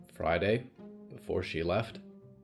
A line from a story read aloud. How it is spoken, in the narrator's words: Clara said quietly